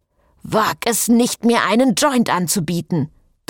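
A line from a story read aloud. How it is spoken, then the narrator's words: Thundered. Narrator (German): donnerte Frederique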